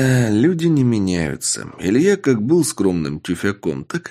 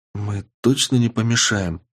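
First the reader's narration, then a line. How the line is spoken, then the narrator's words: Quiet question. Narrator (Russian): спросила меня тихо Полина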